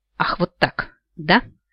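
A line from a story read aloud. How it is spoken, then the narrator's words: Furious through gritted teeth. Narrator (Russian): сквозь зубы процедила Ниалона, взбешенная унизительными репликами до крайности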